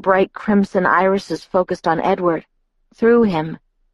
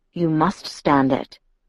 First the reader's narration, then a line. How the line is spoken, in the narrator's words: Carlyle told her gravely